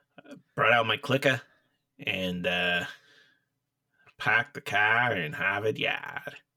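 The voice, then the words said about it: Put-on Boston accent. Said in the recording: “some weird like New Englander, like some Boston accent.”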